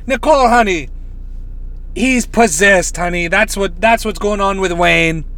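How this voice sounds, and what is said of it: Badly imitated accent of another person. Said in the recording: “I want to do a Miss Cleo so bad ... Awful, awful, awful, awful accent.”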